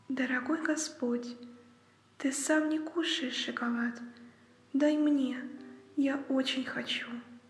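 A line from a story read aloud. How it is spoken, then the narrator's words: Embarrassed quiet voice. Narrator (Russian): Она еще больше сконфузилась, тихо сказала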